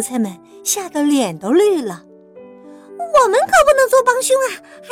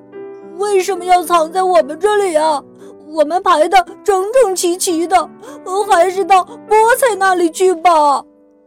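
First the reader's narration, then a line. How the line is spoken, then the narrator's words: Anxious crying. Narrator (Chinese): 洋葱们急得哭起来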